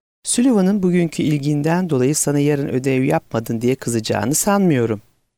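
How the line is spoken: Speaking then laughing. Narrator (Turkish): dedi ve güldü

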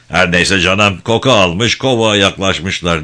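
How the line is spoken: Dismissive voice. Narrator (Turkish): Bayram'ın itirazını önemsemez bir sesle

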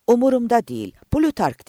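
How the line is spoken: Shouting. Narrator (Turkish): diye bağırdı

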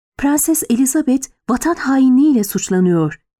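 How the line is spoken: Lady-in-waiting hissing. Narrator (Turkish): diye tısladı Nedime

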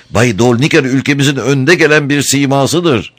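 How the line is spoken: Secretary crying out. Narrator (Turkish): diye haykırdı sekreter

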